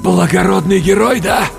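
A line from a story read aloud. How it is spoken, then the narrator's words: Forced out. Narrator (Russian): выдавил я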